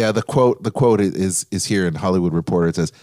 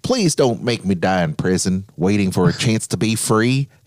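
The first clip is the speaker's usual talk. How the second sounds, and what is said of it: Joe Exotic impression. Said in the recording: “you're channeling him there. That was a good impression. ... I am Joe Exotic. ... The worst impression ever. Worst impression.”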